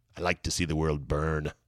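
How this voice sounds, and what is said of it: Bad Joker impression. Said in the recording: “bad Joker impression.”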